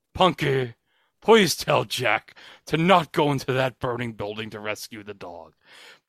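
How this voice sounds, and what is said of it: Imitates a TV character's voice. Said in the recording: “I'm going to do my impression of Henry from Punky Brewster”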